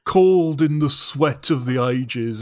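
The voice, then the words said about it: Alan Moore impression. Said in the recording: “my Alan Moore impression”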